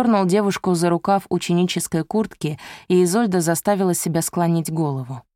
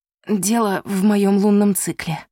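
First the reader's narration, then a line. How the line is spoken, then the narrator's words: Hoarse. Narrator (Russian): прохрипела Изольда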